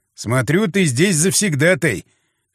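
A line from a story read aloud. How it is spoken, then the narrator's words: Snorting remark. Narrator (Russian): хмыкнул я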